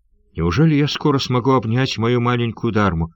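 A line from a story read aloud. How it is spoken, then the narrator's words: Excited exclamation. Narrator (Russian): воскликнул Трэмоль Найк с волнением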